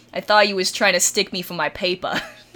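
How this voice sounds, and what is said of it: Attempted New York accent. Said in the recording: “in the most New York accent that I could possibly attempt”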